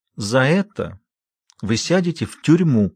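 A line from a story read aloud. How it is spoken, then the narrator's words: Low trembling voice. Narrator (Russian): пообещала она младшему низким дрожащим голосом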